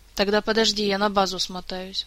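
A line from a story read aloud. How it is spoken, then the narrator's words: Sighing. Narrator (Russian): вздохнул мистралеец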